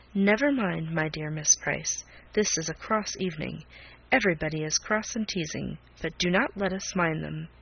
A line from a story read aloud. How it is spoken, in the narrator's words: saying to her in a kind, low whisper